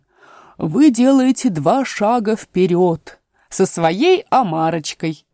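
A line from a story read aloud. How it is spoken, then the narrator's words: Exclamation. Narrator (Russian): воскликнул Грифон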